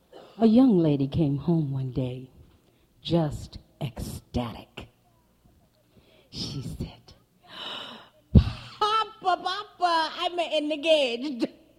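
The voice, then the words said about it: Italian accent storytelling voice. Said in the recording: “I'm going to tell it in my Italian dialect”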